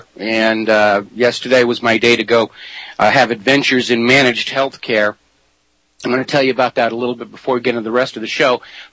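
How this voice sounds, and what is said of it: Sick-sounding voice. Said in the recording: “as you can tell by my voice, I'm still dealing with this bug”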